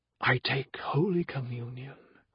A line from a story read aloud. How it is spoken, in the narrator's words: whispered Gardner